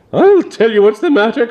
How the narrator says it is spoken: cried Lord Brangbolton

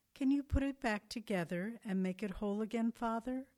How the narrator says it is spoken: Calmly, the boy looked up at him and replied

